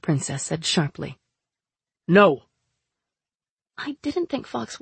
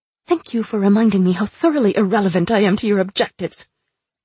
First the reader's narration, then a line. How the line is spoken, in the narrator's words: the princess snapped